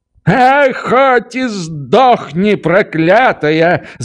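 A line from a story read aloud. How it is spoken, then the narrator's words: Woman's shriek. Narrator (Russian): завизжала баба вслед за ней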